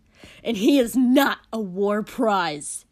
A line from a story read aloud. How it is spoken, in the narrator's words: Kotsky yelled back